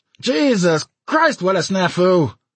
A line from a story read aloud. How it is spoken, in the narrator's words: Somebody cried out in shrill disgust